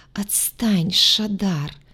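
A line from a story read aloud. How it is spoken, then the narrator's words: Sleepy whisper. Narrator (Russian): сонно прошептала она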